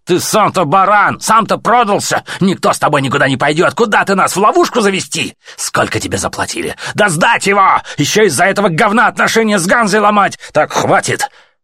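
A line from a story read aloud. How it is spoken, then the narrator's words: Sharp rebuking shout. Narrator (Russian): Сухой, прикрикнул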